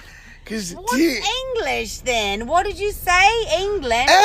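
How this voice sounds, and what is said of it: Usual voice. Nothing is said of it.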